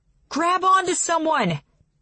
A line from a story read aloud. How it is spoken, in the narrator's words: he shouts